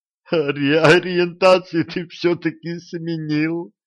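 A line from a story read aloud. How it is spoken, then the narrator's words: Sobbing through laughter. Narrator (Russian): прорыдал он сквозь смех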